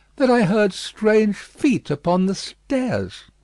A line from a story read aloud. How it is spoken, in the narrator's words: said Lucy, with a pale face and in a faltering voice